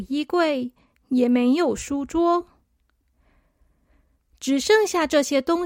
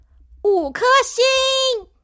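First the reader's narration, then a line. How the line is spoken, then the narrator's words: Loud. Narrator (Chinese): 小扑大声的说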